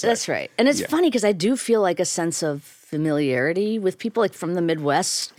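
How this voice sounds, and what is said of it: Chicago accent, tough and short. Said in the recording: “You're straight Chicago. Like, I would be able to guess within 30 seconds that you're from Chicago ... my accent ... there's a toughness, there's a little bit of a shortness, there's an accent”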